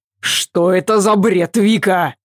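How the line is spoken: Barked. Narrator (Russian): рявкнул Адам

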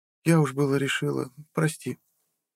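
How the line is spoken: Young woman's relieved sigh. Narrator (Russian): облегченно вздохнула девушка

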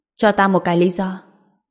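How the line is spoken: Said coldly. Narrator (Vietnamese): Anh lạnh lùng nói

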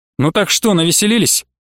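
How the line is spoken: Rough. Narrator (Russian): Получилось довольно грубо

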